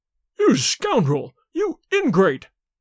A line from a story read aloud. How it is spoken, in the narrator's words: howled the servant